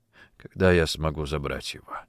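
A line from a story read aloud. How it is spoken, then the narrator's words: Quiet, voice breaking. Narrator (Russian): спросил он тихо, но его голос вдруг сорвался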